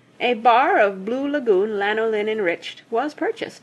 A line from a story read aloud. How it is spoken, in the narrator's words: she said